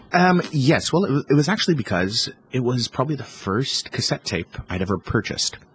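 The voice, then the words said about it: Canadian accent. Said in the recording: “you spent most of your childhood right up to your teenage years in Canada ... Which is why you have the accent.”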